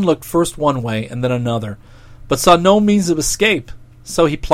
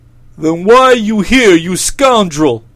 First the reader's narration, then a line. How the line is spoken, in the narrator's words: roared the king